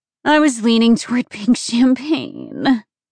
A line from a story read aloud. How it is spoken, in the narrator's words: Adriana groaned